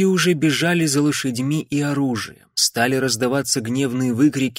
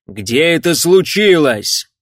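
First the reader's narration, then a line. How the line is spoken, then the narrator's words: Shouted over din, impatient. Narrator (Russian): крикнул Джейми Макфей, перекрывая весь этот гвалт и сдерживая охватившее его безумное нетерпение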